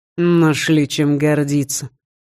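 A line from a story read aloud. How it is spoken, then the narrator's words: Grumbled. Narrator (Russian): проворчал Скандер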